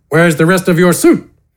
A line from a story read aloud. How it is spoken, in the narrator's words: Gafgarn grunted